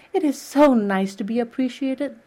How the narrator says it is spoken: sighed Anne rapturously

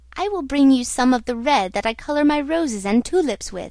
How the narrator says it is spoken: cried the Red Ryl

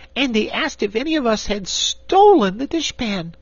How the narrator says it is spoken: continued Corporal Waddle indignantly

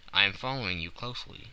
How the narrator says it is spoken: I answered

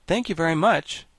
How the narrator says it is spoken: said the monarch brightly

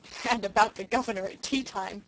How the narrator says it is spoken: chuckled unrepentant Dan

